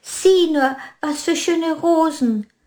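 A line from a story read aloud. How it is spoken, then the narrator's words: Woman's voice calling. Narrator (German): rief eine Frauenstimme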